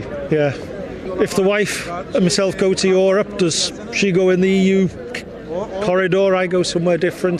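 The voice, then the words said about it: British accent. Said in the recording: “listening to your accent, British accent”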